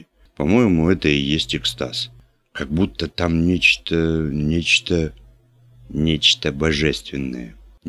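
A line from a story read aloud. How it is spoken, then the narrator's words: Uncertain suggestion. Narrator (Russian): неуверенно подсказал Марик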